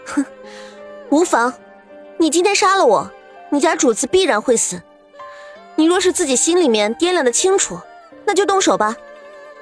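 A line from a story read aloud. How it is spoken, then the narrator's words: Cold sneer. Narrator (Chinese): 莫雪然冷笑道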